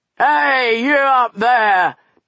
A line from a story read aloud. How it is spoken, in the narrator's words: bellowed Buster